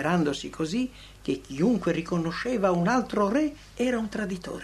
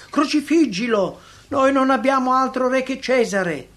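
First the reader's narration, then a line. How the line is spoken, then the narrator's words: Shouted. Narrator (Italian): gridato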